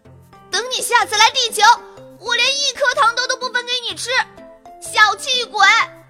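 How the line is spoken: Loud shout. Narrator (Chinese): 小表姐高声呐喊

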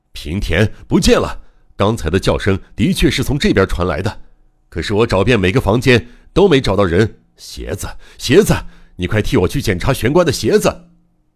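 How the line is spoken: Agitated shouting. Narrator (Chinese): 博士正激动的 大吼着

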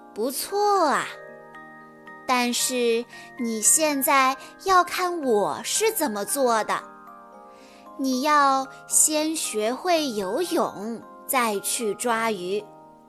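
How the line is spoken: Smiling. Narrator (Chinese): 熊妈妈笑着说

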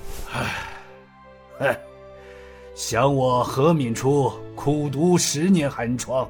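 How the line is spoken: Long sigh. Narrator (Chinese): 何敏初长叹一声

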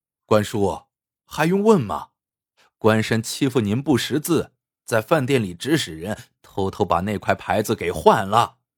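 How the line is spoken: Wry bitter laugh. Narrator (Chinese): 他苦笑一声说

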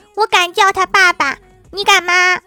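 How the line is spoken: Angry, loud. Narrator (Chinese): 郭晓霞似乎很生气，大声的说

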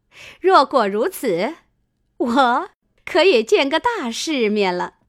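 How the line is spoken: Laughing. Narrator (Chinese): 凤姐笑道

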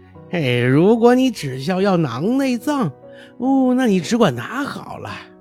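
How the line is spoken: Laughing heartily. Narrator (Chinese): 姐妹们大笑不止，对她说道

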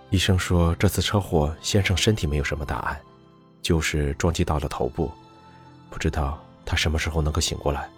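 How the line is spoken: Worried, low voice. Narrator (Chinese): 方琦眼中闪过担忧，沉声回答

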